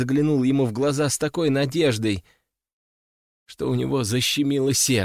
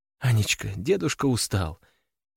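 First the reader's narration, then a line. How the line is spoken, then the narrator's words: Soft. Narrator (Russian): мягко сказала она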